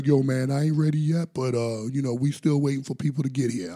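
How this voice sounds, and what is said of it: Impersonation of another man's voice. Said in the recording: “good impersonation”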